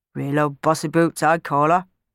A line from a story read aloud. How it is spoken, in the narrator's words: muttered Clem